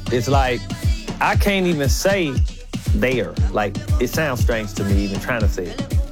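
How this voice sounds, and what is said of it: St. Louis inner-city accent. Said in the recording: “how they say their words, their accent... that's how we talk in St. Louis, especially in the inner city”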